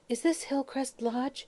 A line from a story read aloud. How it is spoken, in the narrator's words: a strange girl, who asked in a meek voice